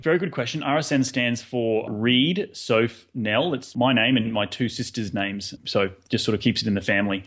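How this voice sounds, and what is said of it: Australian accent. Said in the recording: “a friend from down under ... I love your accent ... except the ones who are in Australia”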